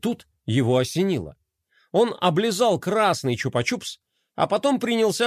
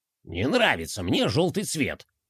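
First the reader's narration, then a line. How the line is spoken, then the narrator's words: Grumbling. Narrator (Russian): проворчал Бублик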